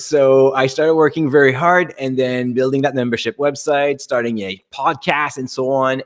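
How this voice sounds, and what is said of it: French Canadian accent. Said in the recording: “I'm French Canadian by the accent, maybe you can tell.”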